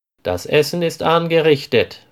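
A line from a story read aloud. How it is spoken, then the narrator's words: Called out. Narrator (German): ruft Frieda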